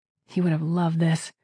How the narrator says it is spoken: she muttered

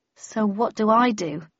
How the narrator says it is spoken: I asked uneasily

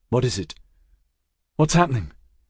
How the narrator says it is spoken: Her voice was urgent

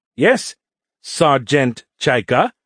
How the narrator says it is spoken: Nert said slowly

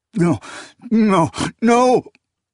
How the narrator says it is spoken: he sobbed

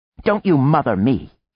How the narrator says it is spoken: she snapped

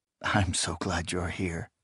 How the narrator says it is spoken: he murmured

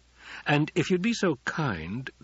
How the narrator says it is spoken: the Duke said

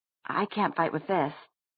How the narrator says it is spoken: Jace said, trying to sound as quavering and nervous as he could

